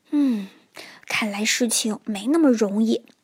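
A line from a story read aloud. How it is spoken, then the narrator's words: Sighing. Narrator (Chinese): 变色龙唉声叹气地说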